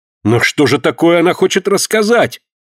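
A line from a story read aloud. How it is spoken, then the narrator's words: Horrified exclamation. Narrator (Russian): с ужасом воскликнул Альберт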